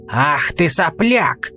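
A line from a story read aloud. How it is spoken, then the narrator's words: Roared. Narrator (Russian): взревел он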